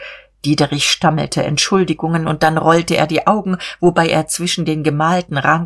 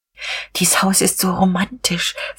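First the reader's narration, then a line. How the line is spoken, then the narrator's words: Whisper. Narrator (German): flüsterte Frau von Vulkow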